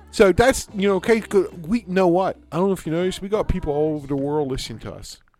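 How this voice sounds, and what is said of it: Pittsburgh accent. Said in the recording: “my accent, and so this is how we talk here in Pittsburgh”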